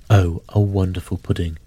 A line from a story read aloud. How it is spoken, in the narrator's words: Bob Cratchit said, and calmly too